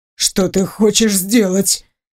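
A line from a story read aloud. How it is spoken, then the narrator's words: Hoarse frightened voice. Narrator (Russian): севшим испуганным голосом произносит Эндрю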